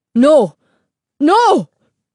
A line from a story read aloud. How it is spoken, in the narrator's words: Señor Castillo cried